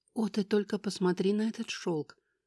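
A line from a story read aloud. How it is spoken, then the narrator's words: Sighing. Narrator (Russian): вздохнула Финелла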